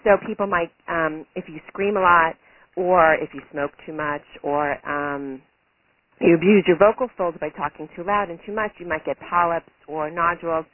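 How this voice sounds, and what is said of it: Slightly hoarse voice. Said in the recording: “I just cleared my throat. You can tell my voice might be a little hoarse because it's early in the morning ... as you can hear my voice, it affects the quality of my voice”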